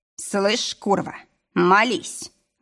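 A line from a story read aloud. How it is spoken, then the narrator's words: Growled. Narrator (Russian): рыкнул я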